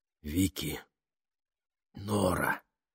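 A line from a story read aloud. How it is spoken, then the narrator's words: Whisper. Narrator (Russian): прошептал он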